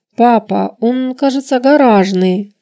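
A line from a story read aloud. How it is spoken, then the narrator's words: Timid guess. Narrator (Russian): робко предположила я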